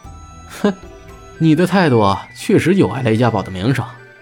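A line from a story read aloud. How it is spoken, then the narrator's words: Laughing. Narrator (Chinese): 朱熹笑道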